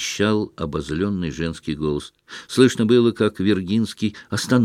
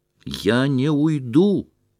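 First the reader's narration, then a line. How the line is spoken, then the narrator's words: Shouting again. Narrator (Russian): прокричал опять Шатов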